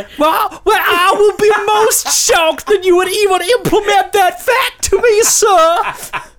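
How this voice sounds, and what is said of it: Put-on Wild West style accent. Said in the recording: “You've gone more manly than me now... I'm doing an accent which I'm remembering, but I can't remember where it's from... I think that's from something like, I don't know, the Wild Wild West”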